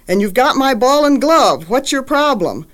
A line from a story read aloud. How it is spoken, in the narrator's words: he yells at poor little Ditto